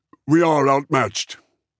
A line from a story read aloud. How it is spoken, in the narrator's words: Verne said stiffly yet hastily, as though seeking to explain his own actions